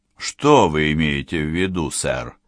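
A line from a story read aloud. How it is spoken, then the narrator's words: Dry, curt. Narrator (Russian): сухо сказал Белл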